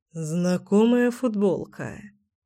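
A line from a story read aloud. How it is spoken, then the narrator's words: Mutter. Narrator (Russian): пробормотал Кирилл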